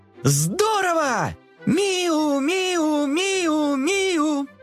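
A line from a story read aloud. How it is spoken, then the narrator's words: Kittens shouting together. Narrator (Russian): Котята дружно закричали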